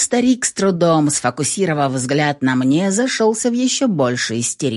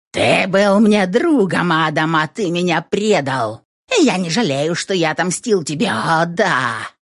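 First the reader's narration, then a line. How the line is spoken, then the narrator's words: Mad hoarse laughter. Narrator (Russian): Засмеялся безумным хриплым смехом этот припадочный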